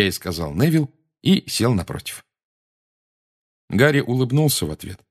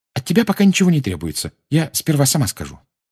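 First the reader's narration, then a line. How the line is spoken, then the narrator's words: Hurried addition. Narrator (Russian): она торопливо добавила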